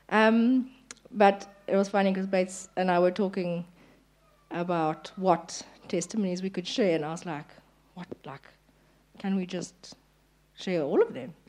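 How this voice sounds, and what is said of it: Hoarse, partly lost voice. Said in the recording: “my voice is is gone a bit, so excuse my voice.”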